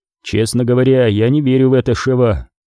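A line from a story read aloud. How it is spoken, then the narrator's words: Grim, curt. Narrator (Russian): мрачно бросил Крис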